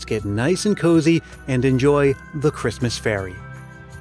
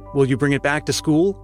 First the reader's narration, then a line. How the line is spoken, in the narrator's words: asked Harry